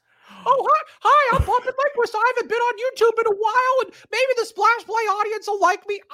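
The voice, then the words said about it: Puppet character voice. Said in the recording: “I'm going to do this bit, do this voice ... A puppet eating a microphone.”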